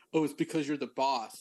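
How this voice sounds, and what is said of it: Put-on Austrian accent. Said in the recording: “like in an Austrian accent.”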